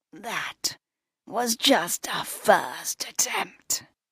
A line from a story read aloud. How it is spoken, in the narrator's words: he wheezed